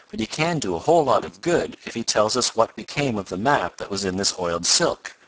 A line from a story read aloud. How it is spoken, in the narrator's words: went on Tom, in a reassuring tone